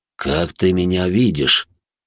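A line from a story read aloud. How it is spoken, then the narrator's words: Weary sigh. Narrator (Russian): устало вздохнул мужчина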